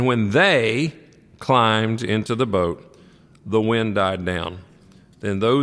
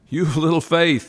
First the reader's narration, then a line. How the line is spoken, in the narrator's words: he said